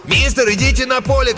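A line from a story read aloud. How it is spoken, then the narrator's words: Shouted. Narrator (Russian): крикнул один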